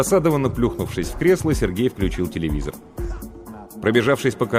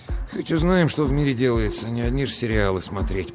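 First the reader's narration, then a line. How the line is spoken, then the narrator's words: Grumbling mutter. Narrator (Russian): пробурчал он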